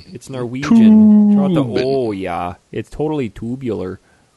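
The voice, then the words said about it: Put-on Minnesota accent. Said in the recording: “That sounds like a Minnesota accent.”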